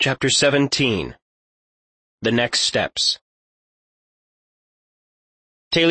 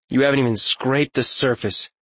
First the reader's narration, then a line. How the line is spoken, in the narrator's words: Talion sighed